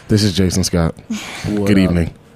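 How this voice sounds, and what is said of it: Smooth radio announcer voice. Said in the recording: “Doing a great radio voice ... sounded so smooth”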